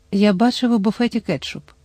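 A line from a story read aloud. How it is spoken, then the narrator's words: Whispering. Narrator (Ukrainian): прошепотів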